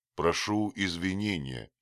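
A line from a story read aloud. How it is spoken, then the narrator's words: Plain. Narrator (Russian): сказал Дик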